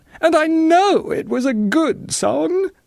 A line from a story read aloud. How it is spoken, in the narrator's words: sobbed Victoriana